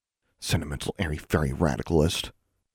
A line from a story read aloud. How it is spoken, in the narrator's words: Larry said contemptuously under his breath